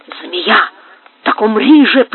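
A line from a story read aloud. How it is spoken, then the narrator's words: Hissing. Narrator (Russian): прошипел Карлос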